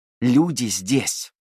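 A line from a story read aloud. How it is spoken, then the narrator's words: Hissed. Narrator (Russian): прошипел он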